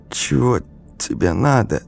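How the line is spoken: Strained hoarse female voice. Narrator (Russian): с трудом выдавила девушка из сухого охрипшего горла

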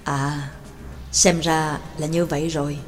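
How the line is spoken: Professor muttering. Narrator (Vietnamese): Giáo sư Phương Tần lẩm bẩm

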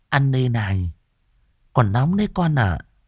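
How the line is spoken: Caring old woman's reminder. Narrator (Vietnamese): giọng nói ân cần của bà cụ nhắc nhở

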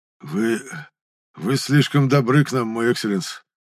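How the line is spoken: Hoarse, forced out. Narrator (Russian): хрипло выдавил из себя Гимран

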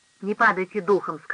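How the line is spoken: Plain. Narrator (Russian): сказала она

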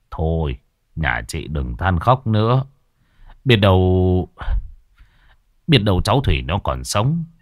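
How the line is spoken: Sighing. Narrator (Vietnamese): ông trưởng họ thở dài

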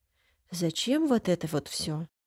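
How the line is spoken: Quiet question. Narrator (Russian): спрашиваю тихо

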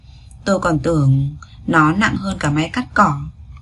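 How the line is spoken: Gentle voice. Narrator (Vietnamese): giọng nói nhẹ nhàng của anh

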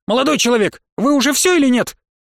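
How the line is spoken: Sharp shrill voice. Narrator (Russian): Раздался над ухом резкий визгливый голос

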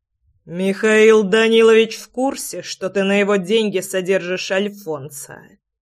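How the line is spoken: Through clenched teeth. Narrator (Russian): Процедил Влад

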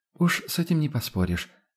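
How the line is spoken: Displeased agreement with sigh. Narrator (Russian): согласилась Адельхайда, недовольна, и вздохнула

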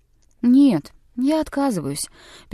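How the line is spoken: Sad. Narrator (Russian): печально сказал он Лаусону

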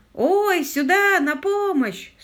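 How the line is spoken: Shouting again. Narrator (Russian): снова закричал лорд Питер

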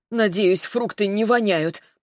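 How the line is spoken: Muttered grumble. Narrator (Russian): проворчала себе под нос Маринка

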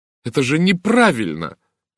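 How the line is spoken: Exclamation. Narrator (Russian): воскликнула Сара

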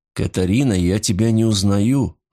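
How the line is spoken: Sighing. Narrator (Russian): вздохнул Рудольф

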